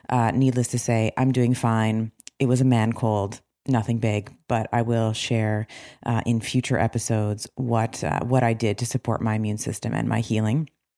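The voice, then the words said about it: Low, husky recovering voice. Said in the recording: “the late night radio FM DJ voice. I am just getting over losing my voice”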